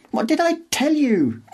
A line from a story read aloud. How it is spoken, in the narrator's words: Girdle screeches